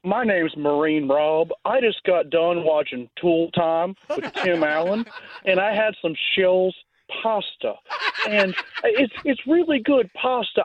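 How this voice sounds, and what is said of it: Imitates another person's voice. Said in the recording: “my Marine Rob impersonation”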